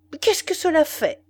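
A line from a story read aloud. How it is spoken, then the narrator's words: Exclaiming. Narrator (French): s'écria Danton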